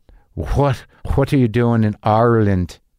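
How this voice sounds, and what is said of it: Attempted Irish accent. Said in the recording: “I can't do an Irish accent. Maybe I can.”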